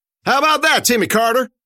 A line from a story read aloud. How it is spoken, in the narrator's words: yelled